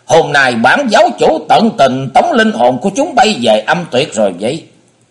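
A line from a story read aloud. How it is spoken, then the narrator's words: Loud shout. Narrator (Vietnamese): Hải Ma giáo chủ thét lớn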